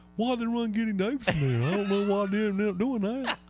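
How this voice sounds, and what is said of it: Mocking dumb voice. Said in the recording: “That's my dumb voice, by the way. ... She always does a dumb voice”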